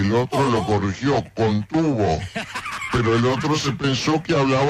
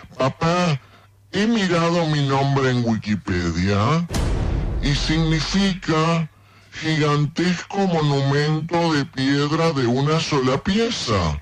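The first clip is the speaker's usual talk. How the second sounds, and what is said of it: Child's voice. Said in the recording (Spanish): “voz de niño”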